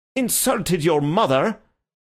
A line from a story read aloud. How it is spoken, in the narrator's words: exclaimed the gentleman incredulously